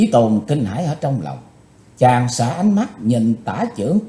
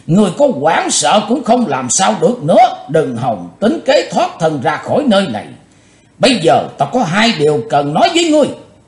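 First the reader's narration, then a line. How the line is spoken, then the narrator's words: Loud laughing speech. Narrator (Vietnamese): Quái nạp Mộc Thông miệng lớn tiếng cười nói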